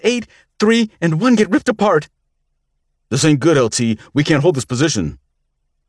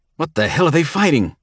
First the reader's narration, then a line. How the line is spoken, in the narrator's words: Knepp snarled